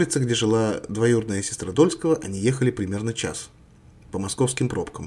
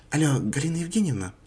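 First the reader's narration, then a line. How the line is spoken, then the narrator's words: Sugary questioning voice. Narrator (Russian): как можно более сладким голосом спросила Мария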